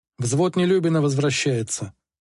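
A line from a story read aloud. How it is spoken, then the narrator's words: Plain. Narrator (Russian): сказал сержант Численко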